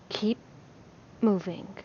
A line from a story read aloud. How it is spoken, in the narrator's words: he whispered, but quiet